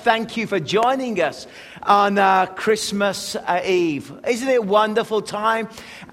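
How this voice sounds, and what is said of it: English accent. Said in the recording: “you can tell I've got an accent. I'm not from around these parts. ... coming from England ... We English people”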